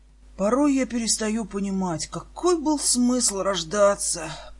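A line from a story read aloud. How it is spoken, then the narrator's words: Muttering. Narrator (Russian): пробормотал Гаррисон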